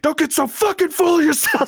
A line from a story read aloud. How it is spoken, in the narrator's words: like yelling in their face